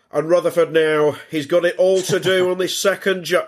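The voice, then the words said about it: Imitates another person's voice. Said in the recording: “good impression of David Coleman”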